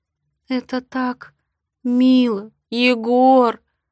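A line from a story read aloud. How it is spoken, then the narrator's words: Sobbing. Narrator (Russian): Рыдаю я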